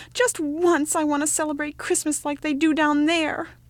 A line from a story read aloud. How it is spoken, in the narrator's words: he cried